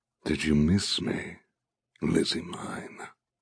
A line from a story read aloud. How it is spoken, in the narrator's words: He murmurs